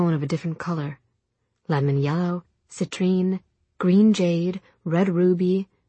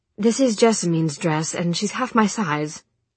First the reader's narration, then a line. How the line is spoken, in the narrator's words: she snapped